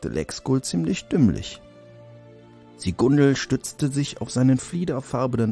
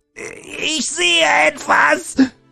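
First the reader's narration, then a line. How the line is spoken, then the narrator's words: Cried out. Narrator (German): schrie Siegundel auf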